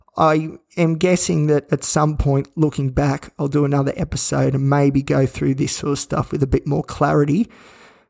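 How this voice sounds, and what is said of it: Flat, croaky voice. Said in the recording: “you can probably even hear it in my voice. We're pretty flat. We're pretty croaky. ... my voice is all croaky”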